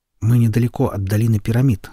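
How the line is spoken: Plain. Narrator (Russian): сказал он

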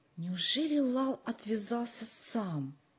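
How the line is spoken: Whispered question. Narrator (Russian): шепотом спросил Джо

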